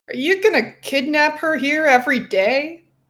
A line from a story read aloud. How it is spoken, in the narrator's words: Jacob asked with a laugh